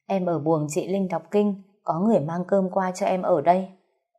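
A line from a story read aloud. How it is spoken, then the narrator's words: Sighing. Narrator (Vietnamese): Cái dao thở dài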